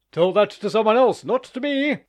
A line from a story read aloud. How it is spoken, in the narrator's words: exclaimed Vankin, whose face expanded into a broad smile